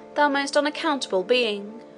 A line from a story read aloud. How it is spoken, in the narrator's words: I cried